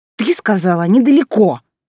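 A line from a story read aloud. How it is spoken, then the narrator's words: Hoarse wheeze. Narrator (Russian): просипела Алиса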